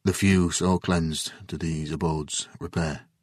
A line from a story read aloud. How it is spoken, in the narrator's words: he finally said in a quiet voice